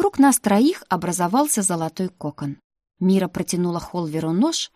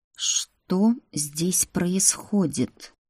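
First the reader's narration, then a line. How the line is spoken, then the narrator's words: Quiet menacing voice. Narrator (Russian): Страшным тихим голосом произнес принц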